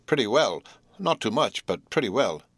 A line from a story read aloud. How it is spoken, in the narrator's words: returned curtly